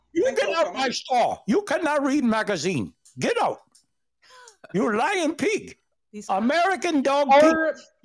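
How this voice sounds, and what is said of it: Put-on Indian accent. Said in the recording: “a slight Indian accent”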